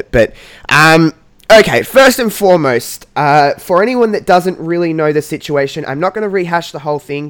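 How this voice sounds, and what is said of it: Congested, nasal voice from a cold. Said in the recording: “I have got a little bit of a cold, so I'm not holding my nose with a peg. I've got a bit of a cold”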